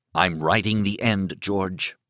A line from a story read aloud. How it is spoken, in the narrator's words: Thad said in a low voice